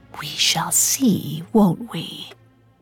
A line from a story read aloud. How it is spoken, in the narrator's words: She whispered